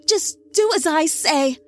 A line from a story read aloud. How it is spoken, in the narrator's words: her mama screamed